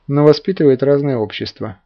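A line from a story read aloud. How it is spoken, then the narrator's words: Gloomy. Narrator (Russian): мрачно дополнил его мысль Игорь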